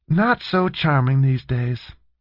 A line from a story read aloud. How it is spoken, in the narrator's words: Jane said with a sigh